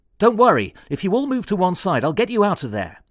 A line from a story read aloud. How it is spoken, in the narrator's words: he yelled at the radio